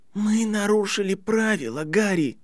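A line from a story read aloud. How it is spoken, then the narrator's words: Hoarse voice. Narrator (Russian): хрипло сказала она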